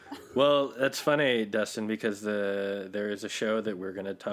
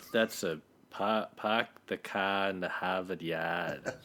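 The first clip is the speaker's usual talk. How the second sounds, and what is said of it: Put-on Boston accent. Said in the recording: “Can you do a Boston accent”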